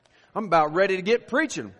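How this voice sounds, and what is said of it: Put-on Southern drawl. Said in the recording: “the little bit of the southern drawl”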